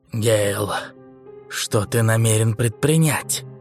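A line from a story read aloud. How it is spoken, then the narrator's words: Frightened whisper. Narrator (Russian): Скарретт испуганно прошептал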